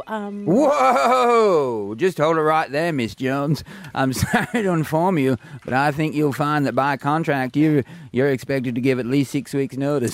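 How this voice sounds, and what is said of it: John Wayne impression. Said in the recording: “accents ... Why are you John Wayne?”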